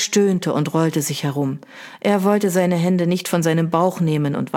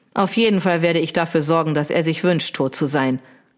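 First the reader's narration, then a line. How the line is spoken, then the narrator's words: Growled. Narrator (German): knurrte Trentham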